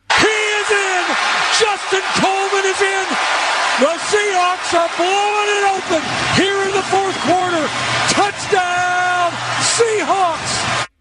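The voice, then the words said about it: Sports play-by-play announcer impression. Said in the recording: “I'm going to reenact how Steve Rabel did it ... Wasn't that a good impression?”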